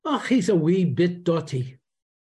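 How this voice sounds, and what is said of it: Strong Scottish Dundee accent. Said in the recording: “very strong Scottish Dundee accent”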